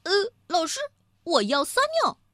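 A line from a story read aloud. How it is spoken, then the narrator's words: Calling out. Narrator (Chinese): 安安 喊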